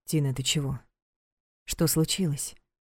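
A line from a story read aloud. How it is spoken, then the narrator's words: Gentle inquiry. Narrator (Russian): мягко поинтересовался Влад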